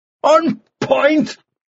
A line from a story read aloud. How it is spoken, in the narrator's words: Mannering shouted